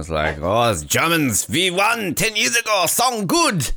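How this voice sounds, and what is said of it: Poor imitation of German accent. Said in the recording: “That was a very bad German accent.”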